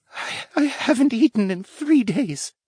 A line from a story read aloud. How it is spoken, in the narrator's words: he whispered